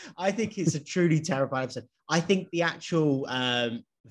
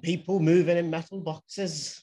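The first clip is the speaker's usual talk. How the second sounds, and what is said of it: Put-on Welsh accent. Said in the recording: “That was my Welsh accent.”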